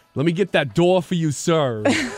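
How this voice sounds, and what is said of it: Christopher Walken impression. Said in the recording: “talking to Christopher Walken, doing an impression of him”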